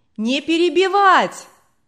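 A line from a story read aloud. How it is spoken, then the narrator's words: Distant shouting. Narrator (Russian): кричали на задних рядах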